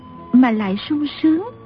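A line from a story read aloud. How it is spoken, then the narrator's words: Gentle young woman. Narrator (Vietnamese): Thiếu nữ dịu dàng nói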